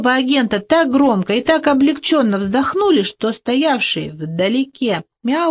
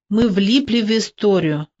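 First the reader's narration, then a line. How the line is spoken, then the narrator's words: Gloomy. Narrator (Russian): мрачно заговорил Бугемот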